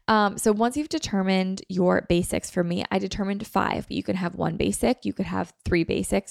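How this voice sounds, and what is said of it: Hoarse, sick-sounding voice. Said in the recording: “I just like totally lost my voice. ... it's so annoying to podcast when you sound sick”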